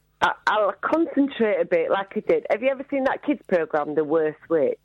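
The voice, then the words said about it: Northern English accent. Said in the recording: “Northern accent... you're just common”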